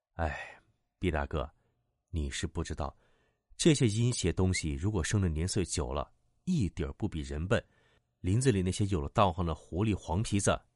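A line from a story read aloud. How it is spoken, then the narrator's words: Sighing. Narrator (Chinese): 小九叹气道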